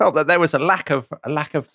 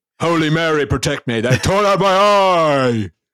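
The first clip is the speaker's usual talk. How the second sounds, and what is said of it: Theatrical Shakespearean dramatic shout. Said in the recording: “in very Shakespearean fashion ... pizzazz in your impersonation of him”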